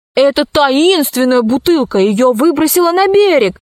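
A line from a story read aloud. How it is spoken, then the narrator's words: Shouting. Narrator (Russian): закричал Пашка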